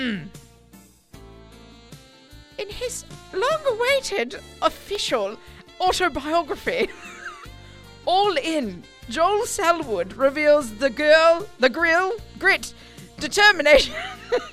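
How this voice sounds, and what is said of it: Put-on posh London English accent. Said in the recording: “that's just the English accent, posh English accent. ... we're going London.”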